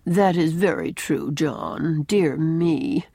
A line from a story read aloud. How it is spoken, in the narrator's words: she at once remarks in that drab, lifeless little voice of hers